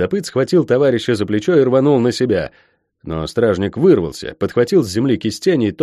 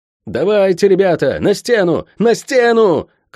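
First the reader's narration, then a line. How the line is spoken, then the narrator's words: Wounded commander shouting. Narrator (Russian): кричал сотник, зажимая рукой окровавленную голову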